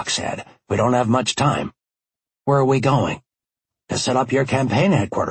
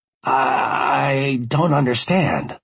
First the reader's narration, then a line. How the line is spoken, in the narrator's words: I stammered